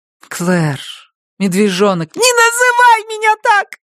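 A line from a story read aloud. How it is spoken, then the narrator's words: Shouted. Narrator (Russian): крикнула сестра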